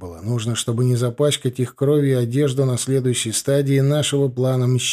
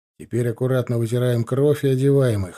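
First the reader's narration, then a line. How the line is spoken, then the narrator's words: Plain. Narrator (Russian): сказал я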